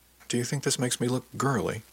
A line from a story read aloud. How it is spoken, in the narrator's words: I asked them